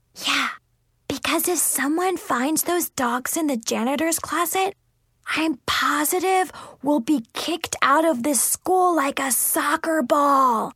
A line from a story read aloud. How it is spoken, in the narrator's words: Chloe added in a whisper